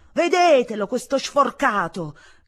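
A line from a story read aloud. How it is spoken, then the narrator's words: Shouting. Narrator (Italian): gridava zia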